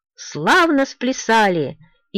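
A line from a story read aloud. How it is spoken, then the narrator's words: Old man shouting. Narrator (Russian): старый Физиуик закричал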